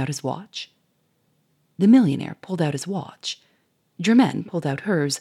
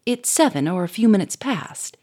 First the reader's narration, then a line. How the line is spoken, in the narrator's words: he said sharply